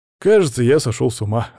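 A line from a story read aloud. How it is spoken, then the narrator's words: Laughing. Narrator (Russian): рассмеялся я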